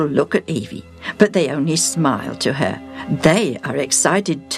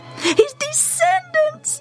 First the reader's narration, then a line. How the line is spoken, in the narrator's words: can't help squealing